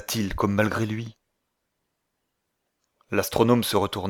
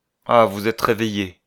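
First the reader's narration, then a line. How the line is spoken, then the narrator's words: Cold. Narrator (French): dit-il froidement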